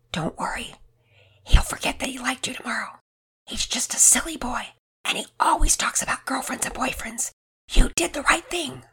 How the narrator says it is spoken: She whispered in her ear

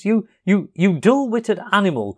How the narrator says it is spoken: cried the rat impatiently

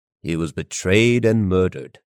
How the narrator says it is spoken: Kenobi declared solemnly

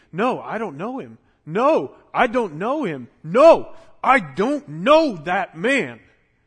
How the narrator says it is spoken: He yelled and cursed and kept repeating

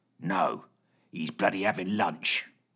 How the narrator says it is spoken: growled Fitch

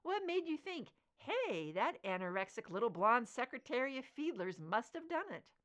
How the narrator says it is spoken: He chuckled

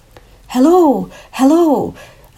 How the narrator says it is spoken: a man's voice yelled out excitedly

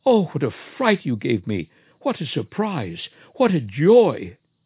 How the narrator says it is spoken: his wife threw herself into his arms, exclaiming

